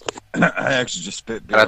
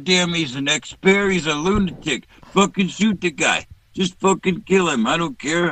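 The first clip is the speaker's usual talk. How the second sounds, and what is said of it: Imitates another person's voice. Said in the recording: “Actually a pretty good impression.”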